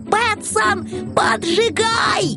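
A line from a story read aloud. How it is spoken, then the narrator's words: Yell. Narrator (Russian): Финдус подскочил, как ужаленный, и завопил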